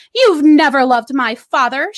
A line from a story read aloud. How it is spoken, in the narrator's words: she spat